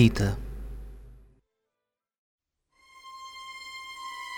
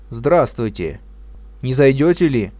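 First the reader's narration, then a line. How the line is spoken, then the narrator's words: Casual, commanding shout. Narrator (Russian): крикнул он мне небрежным и повелительным тоном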